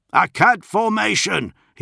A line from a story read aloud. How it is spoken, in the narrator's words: he bellowed to his Bashaws